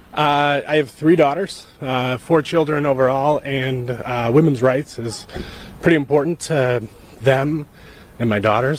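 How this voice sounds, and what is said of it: Emotional voice, close to tears. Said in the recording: “I'm getting a little emotional about that ... Why does he sound like he's going to bawl?”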